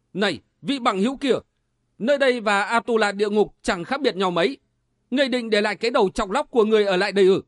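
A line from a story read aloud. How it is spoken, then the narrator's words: Loud shout. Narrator (Vietnamese): Kiếm Linh Tử thét lên một tiếng, đã quát to lên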